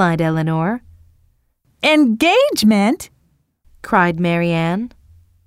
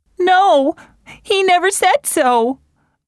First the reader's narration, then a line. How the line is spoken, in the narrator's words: cried Marianne